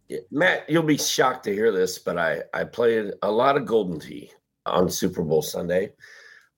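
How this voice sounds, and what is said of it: Hoarse, fading voice. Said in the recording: “a little under the weather, losing my voice a little bit”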